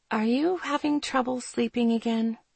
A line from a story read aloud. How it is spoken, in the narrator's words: I asked softly